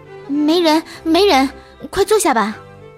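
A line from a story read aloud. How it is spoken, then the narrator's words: Sudden explosive shout. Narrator (Chinese): 我才突然大爆发的喊道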